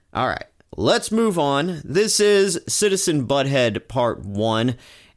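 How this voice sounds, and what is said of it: Stuffy, congested voice. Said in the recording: “head's a little stuffy. I just got off of a brutal cold ... that is why my voice sounds the way it does.”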